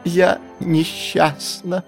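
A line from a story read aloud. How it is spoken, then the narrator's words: Sobbing. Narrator (Russian): прорыдала она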